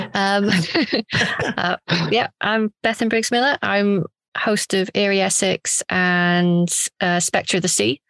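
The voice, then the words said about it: Welsh accent. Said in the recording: “told in a lovely Welsh accent”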